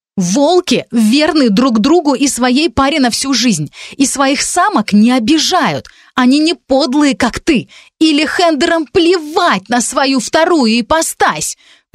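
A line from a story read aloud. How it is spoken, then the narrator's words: Shouting in face. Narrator (Russian): прокричала я ему в лицо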